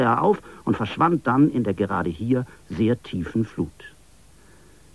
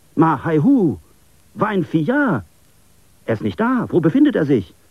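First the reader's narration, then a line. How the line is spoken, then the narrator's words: Startled exclamation. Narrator (German): rief er erschrocken aus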